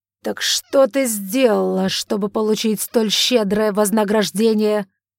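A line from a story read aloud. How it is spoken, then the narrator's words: Angry growl. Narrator (Russian): зарычал он на дочь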